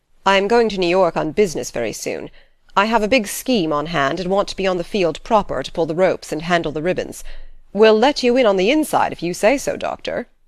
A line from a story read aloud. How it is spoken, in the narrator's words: laughed